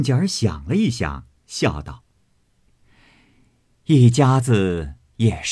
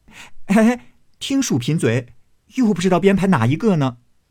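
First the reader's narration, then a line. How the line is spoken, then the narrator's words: Laughing group speaking. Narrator (Chinese): 众人已经笑了，都说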